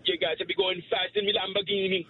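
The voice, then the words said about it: Put-on Jamaican accent. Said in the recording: “no, a Jamaican accent. ... Only Jamaican. ... Jamaican. ... That was good. Perfect.”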